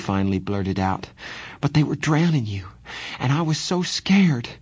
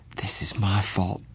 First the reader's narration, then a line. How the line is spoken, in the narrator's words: Johnny said in a miserable voice